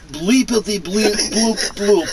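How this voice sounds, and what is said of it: Robot beeps in Russian accent. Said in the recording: “do R2-D2's bleepity bloopities in an accent ... would probably be Russian ... That wasn't bad!”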